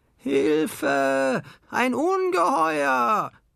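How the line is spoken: Screamed very loudly. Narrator (German): schrie sie so laut

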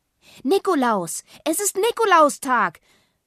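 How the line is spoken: Shouting. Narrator (German): schreit Rosa

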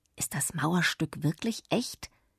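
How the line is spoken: Whispered question. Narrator (German): fragte mich Joschi flüsternd

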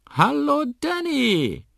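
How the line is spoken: Calling out. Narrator (German): ruft Molly

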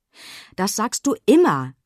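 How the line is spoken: Scolding. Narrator (German): schimpfte Pina

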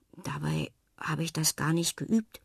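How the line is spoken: Murmurs. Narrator (German): murmelt Fred

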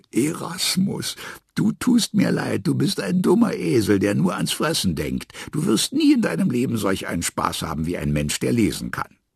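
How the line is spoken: Amused, laughing to tears. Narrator (German): amüsierte er sich köstlich, lachte Tränen und sagte

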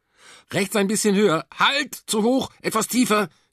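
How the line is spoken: Calling out. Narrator (German): rief ich

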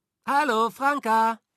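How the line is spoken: Child calling down. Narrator (German): rief da ein Junge von der Kletterspinne zu ihnen hinunter

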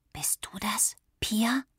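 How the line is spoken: Whispered. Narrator (German): flüsterte sie

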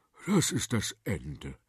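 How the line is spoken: Groaning king. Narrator (German): stöhnte der König

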